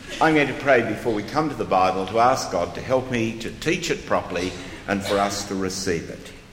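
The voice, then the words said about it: Australian accent. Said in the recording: “the strange accent ... even small children in Australia can do it”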